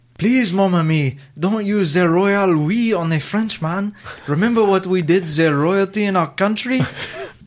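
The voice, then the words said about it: Put-on French accent. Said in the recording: “Frenchie quote ... I'm not going to do the accent because I can't do that ... Can you do the accent”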